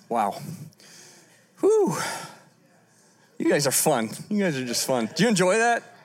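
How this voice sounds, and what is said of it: Slightly out of breath. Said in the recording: “I'm still a little out of breath.”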